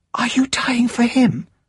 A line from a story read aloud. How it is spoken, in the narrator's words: she whispered